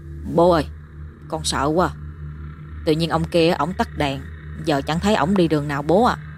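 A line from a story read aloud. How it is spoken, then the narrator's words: Soft, frightened murmur. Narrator (Vietnamese): Tôi khẽ lẩm bẩm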